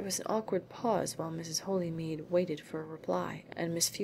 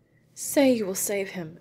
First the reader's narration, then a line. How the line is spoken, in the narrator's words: exclaimed Mrs